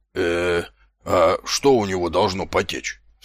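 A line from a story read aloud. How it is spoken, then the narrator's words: Anxious whisper. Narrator (Russian): встревоженным шепотом переспросил сержант Колон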